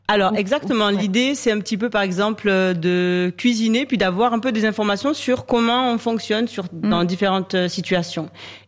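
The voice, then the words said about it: Speaks with a slight accent. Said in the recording (French): “comme j'aime comme elle parle ... petit ... Accent”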